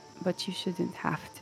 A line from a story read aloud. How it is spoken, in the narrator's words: she says kind of quietly